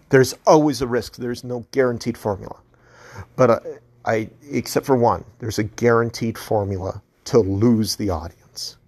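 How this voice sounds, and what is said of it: Hoarse, soft, fading voice. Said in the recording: “my voice is going out. I've been talking so long. It's hoarse. It's probably gotten really soft.”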